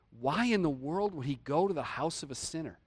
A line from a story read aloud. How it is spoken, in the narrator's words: And everybody mutters